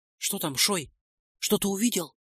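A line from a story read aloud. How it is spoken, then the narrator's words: Whispered question. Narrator (Russian): шепотом спросил Нойс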